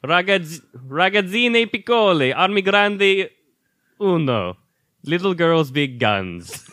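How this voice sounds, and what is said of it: Exaggerated Italian restaurant accent. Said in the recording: “Why do you do it in an Olive Garden accent?”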